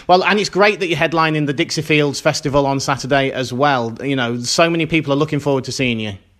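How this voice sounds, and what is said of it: Mild British accent. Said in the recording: “I love your accent... we are like fascinated by your accent... I don't even sound particularly British... I haven't got that Hugh Grant accent at all”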